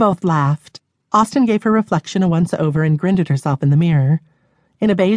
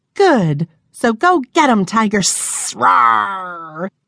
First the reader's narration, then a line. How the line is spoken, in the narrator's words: Dawn let out a hiss and a roar